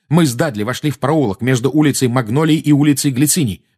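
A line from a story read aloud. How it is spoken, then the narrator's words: Fast, restrained anger. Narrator (Russian): быстро заговорил Гарри, стараясь обуздать свою злость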